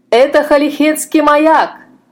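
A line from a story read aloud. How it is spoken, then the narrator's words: Shouting. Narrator (Russian): закричал капитан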